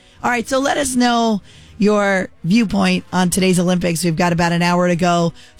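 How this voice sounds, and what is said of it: Worn, strained voice. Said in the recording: “I apologize for my voice. It started out pretty strong this morning, but it's gone downhill”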